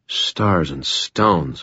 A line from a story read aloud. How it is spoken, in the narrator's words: I murmured